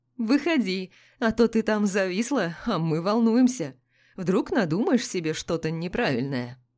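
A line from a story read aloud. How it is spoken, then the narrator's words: Laughing. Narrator (Russian): Он засмеялся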